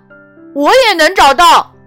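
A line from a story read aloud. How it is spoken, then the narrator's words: Shouting. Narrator (Chinese): 艾莎喊道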